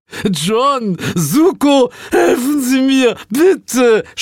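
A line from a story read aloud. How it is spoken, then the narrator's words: Boss shouting. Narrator (German): schrie unser Chef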